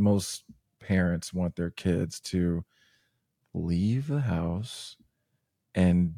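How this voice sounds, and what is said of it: Usual voice. Nothing is said of it.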